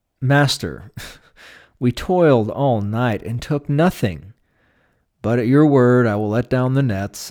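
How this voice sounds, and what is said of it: Slightly indignant tone. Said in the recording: “you can kind of hear him using that kind of tone of voice ... it's a little indignant”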